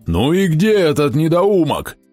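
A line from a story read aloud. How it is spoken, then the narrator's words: Furious yelling. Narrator (Russian): грозно вращая глазами, орал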